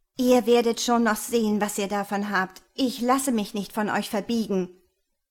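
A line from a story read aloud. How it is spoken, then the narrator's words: Angry thought. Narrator (German): dachte sie wütend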